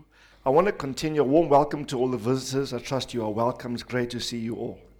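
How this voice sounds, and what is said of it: Sick, strained-sounding voice. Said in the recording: “Please excuse my voice. I'm just battling the flu.”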